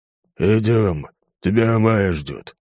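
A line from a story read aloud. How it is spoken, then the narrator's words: Hoarse low growl. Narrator (Russian): произнес он хриплым низким голосом, больше похожим на грозный рык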